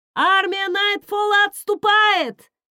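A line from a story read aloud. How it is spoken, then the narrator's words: Man shouting. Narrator (Russian): крикнул он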